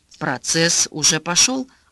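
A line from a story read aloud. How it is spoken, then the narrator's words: Plain. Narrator (Russian): ответил супруг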